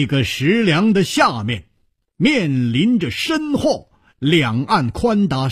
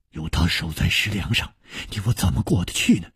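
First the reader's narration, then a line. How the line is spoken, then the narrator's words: Whispered. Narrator (Chinese): 南宫翎悄声说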